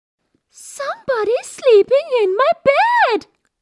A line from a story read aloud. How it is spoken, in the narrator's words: said Baby Bear in his tiny little voice